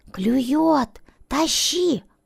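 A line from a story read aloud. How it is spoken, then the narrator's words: Father's excited whisper. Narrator (Russian): взволнованно шепнул папа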